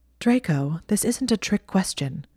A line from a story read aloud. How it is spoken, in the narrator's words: she said in a sharp voice